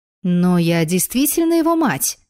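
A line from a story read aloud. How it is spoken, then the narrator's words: Exclaimed. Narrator (Russian): воскликнула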